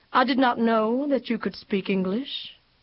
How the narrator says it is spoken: he said evenly

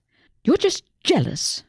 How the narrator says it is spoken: Susie snapped

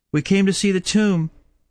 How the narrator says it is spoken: said Mary Magdalene

